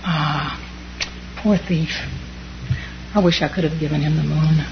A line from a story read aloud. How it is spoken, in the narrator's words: the monk sighed